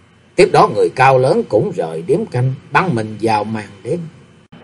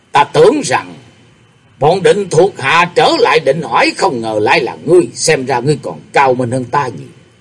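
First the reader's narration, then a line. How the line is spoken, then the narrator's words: Sudden reply. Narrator (Vietnamese): bỗng nhiên có tiếng trả lời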